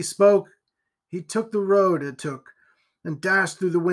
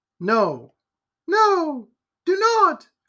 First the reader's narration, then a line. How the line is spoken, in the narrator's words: cried the lady